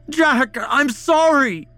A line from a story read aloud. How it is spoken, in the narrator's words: Ian shouted